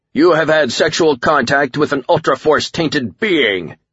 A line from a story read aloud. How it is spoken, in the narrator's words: Akuma shouted